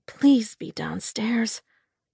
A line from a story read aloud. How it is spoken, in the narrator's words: I murmured to myself, wincing when I realized I was actually hoping that a woman was about to be attacked